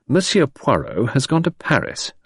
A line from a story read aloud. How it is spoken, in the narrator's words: I replied coldly